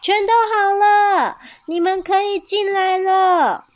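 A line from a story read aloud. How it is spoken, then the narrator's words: Children shouting from inside. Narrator (Chinese): 屋子里的鳄鱼妹妹和长颈鹿弟弟大喊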